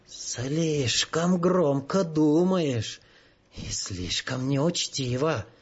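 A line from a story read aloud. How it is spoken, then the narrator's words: Hissed. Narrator (Russian): прошипел он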